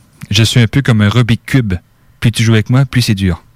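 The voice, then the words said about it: Put-on French accent. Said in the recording (French): “je le dis avec l'accent français.”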